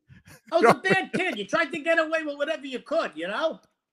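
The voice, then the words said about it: Brooklyn accent. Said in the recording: “that beautiful, wonderful accent of yours, you are originally from Brooklyn”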